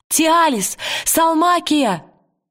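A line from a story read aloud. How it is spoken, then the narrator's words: Shouting. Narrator (Russian): закричала Лира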